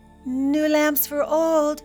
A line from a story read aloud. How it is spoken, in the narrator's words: cried the peddler